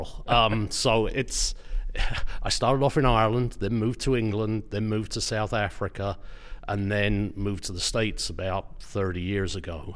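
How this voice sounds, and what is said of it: Mixed Irish, English, South African accent. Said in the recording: “when you first opened your mouth, I was a little bit confused ... what is that accent? ... I'm a mongrel.”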